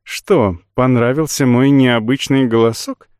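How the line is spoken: Cooing. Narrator (Russian): проворковала Йолань

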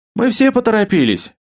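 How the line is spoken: Snorting. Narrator (Russian): фыркнула Илона

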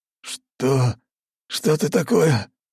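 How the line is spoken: Hoarse rasp. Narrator (Russian): прохрипел он

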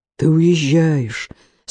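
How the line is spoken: Tragic moan. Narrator (Russian): с трагическим выражением простонал Эсме

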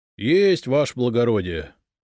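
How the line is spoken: Sad reply. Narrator (Russian): печально ответил городовой

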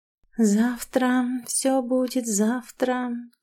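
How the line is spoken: Quiet mumbling. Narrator (Russian): тихо бубнила я

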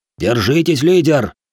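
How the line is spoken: Shout, warrior. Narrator (Russian): выкрикнул шиноби

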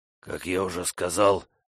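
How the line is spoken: Strained wheeze. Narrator (Russian): удалось ему наконец прохрипеть

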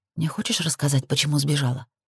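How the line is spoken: Quiet question. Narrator (Russian): спросила я тихо

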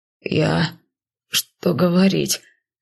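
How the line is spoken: Stammering mutter. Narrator (Russian): запинаясь, пробормотал Муску

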